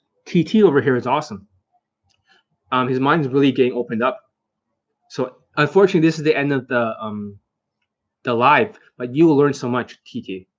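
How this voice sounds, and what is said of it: Hoarse, failing voice. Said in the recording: “Sorry, I'm losing my voice. Even at the risk of losing my voice, because laryngitis or something ... for whatever voice I had left over”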